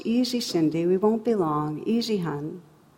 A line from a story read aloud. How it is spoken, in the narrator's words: saying in a controlled voice